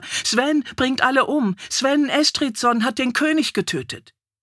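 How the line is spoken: Woman shrieking repeatedly. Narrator (German): kreischte eine Frau wieder und wieder

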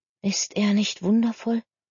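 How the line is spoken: Whispering. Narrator (German): flüsterte Clara ihrer Cousine zu

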